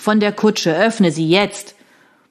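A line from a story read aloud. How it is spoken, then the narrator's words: Growling. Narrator (German): knurrte er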